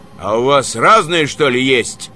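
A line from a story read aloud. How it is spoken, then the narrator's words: Gloomy question. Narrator (Russian): мрачно спросил Иван Николаевич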